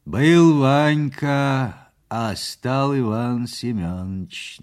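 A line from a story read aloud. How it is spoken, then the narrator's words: Mocking interjection. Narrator (Russian): насмешливо вставил из синей чей-то голос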